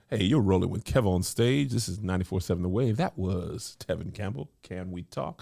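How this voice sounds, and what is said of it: Smooth jazz radio DJ voice. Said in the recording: “I did my radio voice ... if I did smooth jazz”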